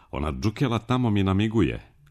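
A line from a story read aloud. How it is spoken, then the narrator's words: Sudden shout. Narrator (Serbian): iznenada je povikala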